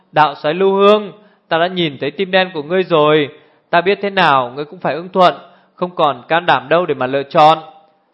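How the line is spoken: Loud laughter. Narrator (Vietnamese): Nam Cung Linh lại cười to

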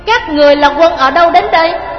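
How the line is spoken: Shout through megaphone. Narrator (Vietnamese): Nghiêm Sơn cầm loa quát

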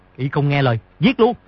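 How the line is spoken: Barked order. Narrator (Vietnamese): viên đội trưởng bèn quát

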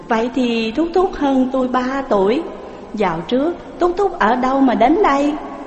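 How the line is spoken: Smiling woman. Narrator (Vietnamese): Người đàn bà mỉm cười mà rằng

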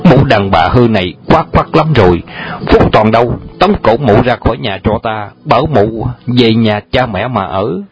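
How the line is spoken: Furious loud shout. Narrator (Vietnamese): Phùng Lai càng nổi giận quát lớn

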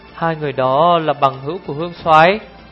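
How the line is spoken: Trembling voice question. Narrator (Vietnamese): Giao Trường Hoa bất giác run người, hắn run run giọng hỏi

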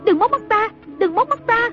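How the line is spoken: Panicked screaming. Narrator (Vietnamese): hốt hoảng kêu rú lên

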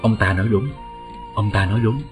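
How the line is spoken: Soft cold laugh. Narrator (Vietnamese): một thân ảnh khe khẽ cười lạnh nói

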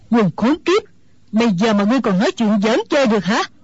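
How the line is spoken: Old woman's angry shout. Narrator (Vietnamese): Mụ già tức giận quát lên

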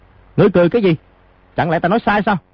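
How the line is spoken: Angry. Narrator (Vietnamese): lão lục tức giận nói

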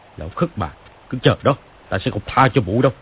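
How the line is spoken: Shouted. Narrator (Vietnamese): quát lên

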